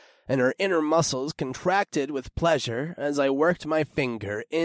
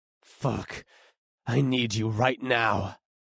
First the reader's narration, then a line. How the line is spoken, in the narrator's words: I growled